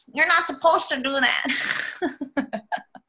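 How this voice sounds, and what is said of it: Mocking entitled Karen character voice. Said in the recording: “that's my Karen voice”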